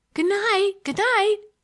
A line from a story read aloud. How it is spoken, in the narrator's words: cried Olivia, the real Olivia, in derision